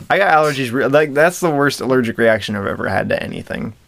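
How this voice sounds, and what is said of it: Nasal, congested voice. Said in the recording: “In case you couldn't tell from my voice, I'm all nasally, gross, disgusting.”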